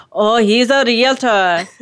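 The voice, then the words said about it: Imitates another person's voice. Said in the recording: “do my best Gloria impression ... I can't do it at all, can I?”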